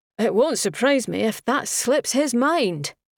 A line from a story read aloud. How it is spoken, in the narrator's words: Dougray said, his voice laced with derision